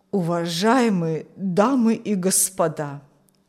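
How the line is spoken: Old man's trembling voice. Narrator (Russian): начал старик дрожащим голосом

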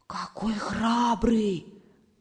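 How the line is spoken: Group whisper. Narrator (Russian): прошептали все

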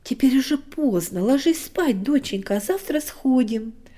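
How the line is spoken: Plain. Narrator (Russian): сказал папа

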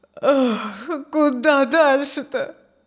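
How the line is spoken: Wistful sigh. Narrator (Russian): Тоскливо вздохнул Петр

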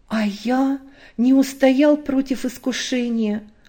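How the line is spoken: Timid. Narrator (Russian): робко заговорил Витя

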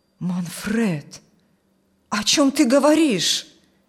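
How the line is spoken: Male exclamation. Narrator (Russian): воскликнул пан Николай

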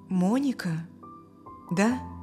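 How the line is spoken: Uncertain, father. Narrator (Russian): неуверенно сказал отец Стивена

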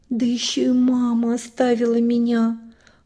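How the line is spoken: Upset whisper, bitter sobbing. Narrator (Russian): расстроенно прошептала она на ушко Рыжику и горько зарыдала

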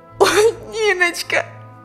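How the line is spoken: Sobbing harder. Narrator (Russian): Еще сильнее зарыдала Алевтина

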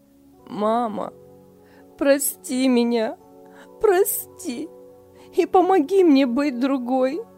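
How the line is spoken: Sobbing. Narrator (Russian): рыдала Лиля

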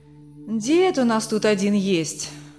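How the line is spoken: Tired sigh, woman. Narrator (Russian): устало вздохнула женщина

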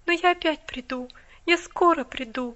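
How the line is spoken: Tender promise. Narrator (Russian): ласково пообещала она

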